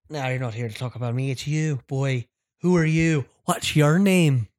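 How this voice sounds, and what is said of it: Put-on Irish accent. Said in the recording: “I'm gonna give him an Irish accent ... Him with an Irish accent too.”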